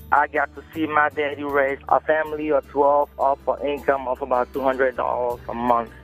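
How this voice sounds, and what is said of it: Cameroonian West African accent. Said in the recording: “if you can tell from my accent, I'm not originally from around here. I grew up in Cameroon, West Africa.”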